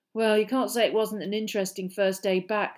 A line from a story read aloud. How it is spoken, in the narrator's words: said Ron gloomily